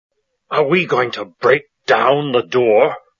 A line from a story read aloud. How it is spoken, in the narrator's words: the first man asked angrily